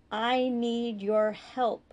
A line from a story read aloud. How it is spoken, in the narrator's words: Doyle said slowly, trying to make the words as distinct as possible